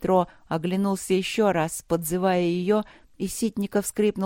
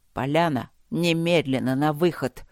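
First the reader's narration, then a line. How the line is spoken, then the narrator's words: Icy command. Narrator (Russian): ледяным тоном приказал остановившийся рядом майор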